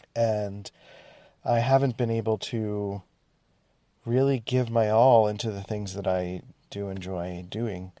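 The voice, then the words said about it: Nasal, congested voice. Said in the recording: “I've been sick. I don't know if you can kind of hear it in my voice. It's a little nasally.”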